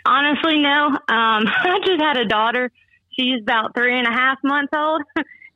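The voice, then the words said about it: Out of breath. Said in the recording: “I'm probably sound out of breath, because I'm rocking her as we speak right now.”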